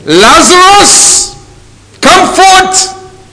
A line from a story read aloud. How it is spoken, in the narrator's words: Jesus thundered